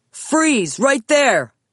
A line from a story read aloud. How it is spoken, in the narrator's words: an officer shouted